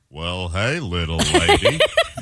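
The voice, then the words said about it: Cowboy drawl impression. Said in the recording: “it's the cowboy ... Can you do an impression of him ... Is it John Wayne? ... my impression”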